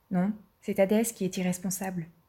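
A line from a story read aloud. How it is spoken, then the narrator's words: Curt dry reply. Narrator (French): répondait sèchement Athéna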